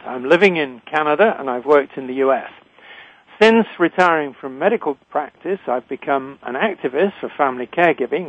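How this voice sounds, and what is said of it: British accent. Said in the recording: “I'm a physician trained in Britain, as you can tell from my accent.”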